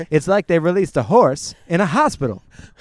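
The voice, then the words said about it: Imitates another person's voice. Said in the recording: “I've been working on my John Mulaney impression. ... That was well done.”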